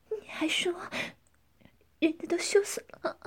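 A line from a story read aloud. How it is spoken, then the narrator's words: Panting heavily. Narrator (Chinese): 江环喘着粗气说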